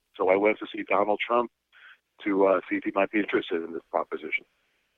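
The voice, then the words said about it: New York accent. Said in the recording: “probably everyone can tell by now I'm from New York City ... Would it be that accent? Is there a little hint of that in there?”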